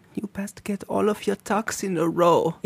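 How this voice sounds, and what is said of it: Subdued put-on German accent. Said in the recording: “in a German accent, but, like, subdued ... Classic German”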